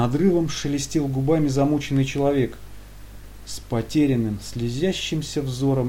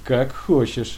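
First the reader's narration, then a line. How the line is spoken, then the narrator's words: Plain. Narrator (Russian): сказал второй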